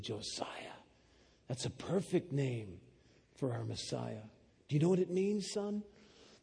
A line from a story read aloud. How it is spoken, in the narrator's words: my father, he bent down and whispered in my ear, he said